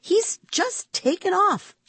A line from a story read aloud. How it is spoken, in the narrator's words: I exclaimed